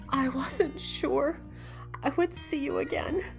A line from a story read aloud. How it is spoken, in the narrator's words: she sobbed